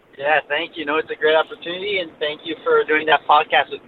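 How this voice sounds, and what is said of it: Slight French Canadian accent. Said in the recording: “I hear a little bit of an accent ... I'm French Canadian”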